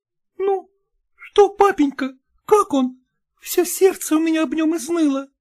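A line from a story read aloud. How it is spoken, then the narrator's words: Timid question. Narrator (Russian): робко спросила Таня мать про отца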